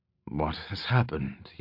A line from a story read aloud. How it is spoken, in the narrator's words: he muttered, his own voice thick and barely recognizable